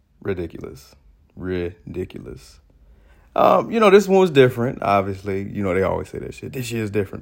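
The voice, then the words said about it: Voice sounding off, worn out. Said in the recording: “That's why my voice sounds crazy like this”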